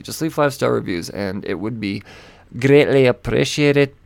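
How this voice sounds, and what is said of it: Strained, choking Scottish-like put-on accent. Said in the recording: “I don't know what that accent was. It's like a choking Scotsman.”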